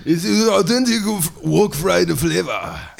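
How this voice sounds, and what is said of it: Exaggerated ninja character voice. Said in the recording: “in your fucking ninja voice”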